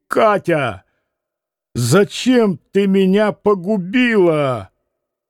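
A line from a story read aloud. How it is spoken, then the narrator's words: Loud sobbing. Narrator (Russian): громко зарыдал было на всю залу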